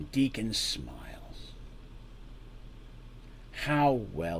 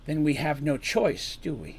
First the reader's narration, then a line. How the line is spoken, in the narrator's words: says Artemis